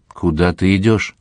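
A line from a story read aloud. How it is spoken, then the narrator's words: Voice from heaven asking. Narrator (Russian): кто-то с небес спросил его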